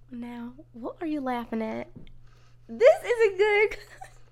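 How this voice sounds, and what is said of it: Exaggerated Southern country accent. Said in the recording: “this one's going to be southern ... It sounds like an actress doing a country accent in like a movie.”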